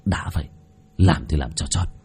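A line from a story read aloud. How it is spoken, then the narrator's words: Harsh, gritted voice. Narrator (Vietnamese): Bác cổ gằn giọng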